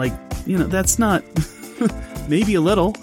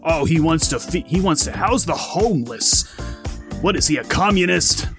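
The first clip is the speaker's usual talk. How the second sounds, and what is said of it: Rush Limbaugh impression. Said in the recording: “shifting into my Limbaugh impersonation.”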